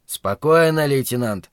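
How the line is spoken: Grumbling. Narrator (Russian): проворчал Зарая

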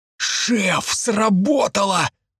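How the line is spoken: Wheezing. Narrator (Russian): просипел Санька

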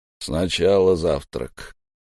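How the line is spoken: Grunt, then plain. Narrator (Russian): Торос хмыкнул и сказал

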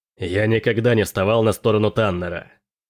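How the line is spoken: Growled. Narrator (Russian): прорычал Келин

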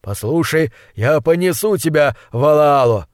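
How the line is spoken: Shout over the wind. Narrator (Russian): прокричал Аваля поверх ветра

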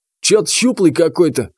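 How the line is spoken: Dismissive snort. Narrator (Russian): хмыкнул третий

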